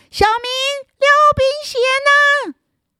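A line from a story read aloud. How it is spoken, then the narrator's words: Angry distant shout. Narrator (Chinese): 气冲冲的远远的就喊着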